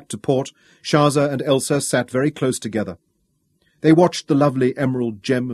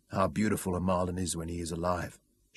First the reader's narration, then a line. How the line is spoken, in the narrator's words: Shaza murmured